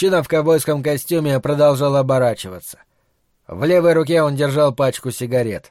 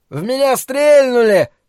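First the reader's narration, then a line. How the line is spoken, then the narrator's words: Yelling. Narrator (Russian): завопил тычок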